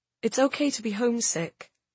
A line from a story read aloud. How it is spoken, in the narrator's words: I said gently